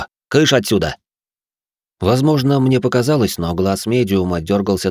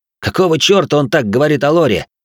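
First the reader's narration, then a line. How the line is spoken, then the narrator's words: Indignant young man growling. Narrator (Russian): возмущенно прорычал светловолосый парень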